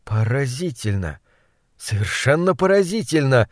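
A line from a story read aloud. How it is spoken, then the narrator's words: Hoarse voice. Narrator (Russian): сипло выговорил он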